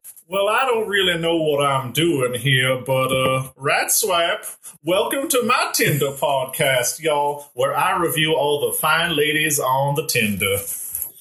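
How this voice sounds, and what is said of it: Strong Southern US Georgian accent. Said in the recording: “he has that strong, like, Georgian accent... Southern gent.”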